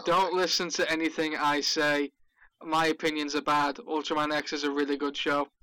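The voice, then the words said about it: Northern English accent. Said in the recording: “because he's British, the accent sells it ... I'm Northern England”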